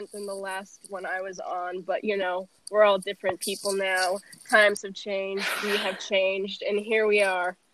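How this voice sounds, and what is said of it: Congested voice from a cold. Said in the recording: “I have a cold, so... I sound different”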